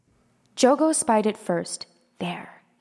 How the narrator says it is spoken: said in a hushed voice

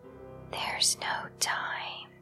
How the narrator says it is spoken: she whispered

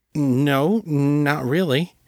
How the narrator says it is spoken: he stammered

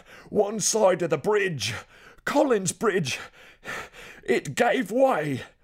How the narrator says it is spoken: Gladstonians gasped at the thought

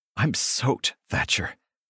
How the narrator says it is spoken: I gasp back

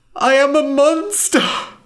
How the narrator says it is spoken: cried

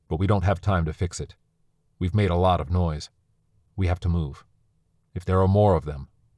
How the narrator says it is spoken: said coldly

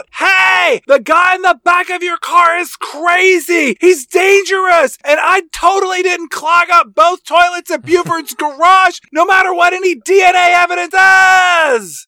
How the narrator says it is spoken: Grace screams out

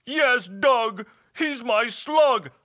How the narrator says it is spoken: hollered the hobgoblin

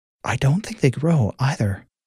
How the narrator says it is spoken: Fanola nervously whispered

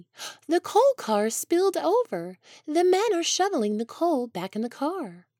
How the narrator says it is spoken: he said excitedly

